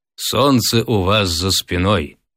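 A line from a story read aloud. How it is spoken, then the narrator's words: Stern, solemn tone. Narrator (Russian): суровым и торжественным тоном сказал Волантен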